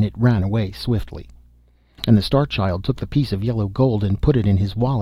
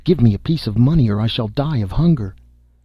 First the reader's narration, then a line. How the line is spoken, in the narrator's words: the leper cried